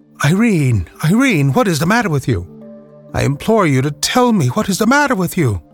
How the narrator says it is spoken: exclaimed

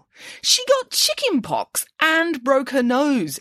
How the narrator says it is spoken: exclaimed Nanny Piggins

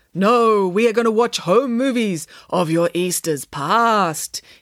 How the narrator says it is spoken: intoned Samantha, with as much gravitas as she could muster

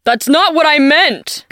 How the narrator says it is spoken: Guide shouted

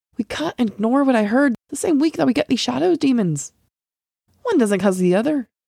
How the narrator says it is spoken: Al urged, his voice almost pleading

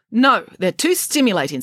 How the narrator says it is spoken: snapped the head nurse

